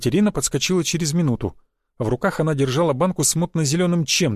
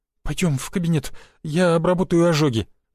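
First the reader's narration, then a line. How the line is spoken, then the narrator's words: Trembling small voice. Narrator (Russian): дрожащим голоском произнесла она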